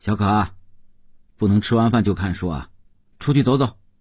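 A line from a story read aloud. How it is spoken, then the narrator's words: Calling out. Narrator (Chinese): 邓文轩叫道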